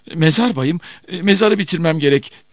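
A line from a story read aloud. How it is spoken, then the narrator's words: Gravedigger stammering. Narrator (Turkish): diye kekeledi mezarcı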